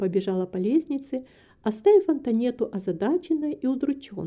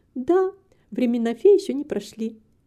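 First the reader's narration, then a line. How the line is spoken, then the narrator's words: Cheerful. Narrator (Russian): весело продолжала Рита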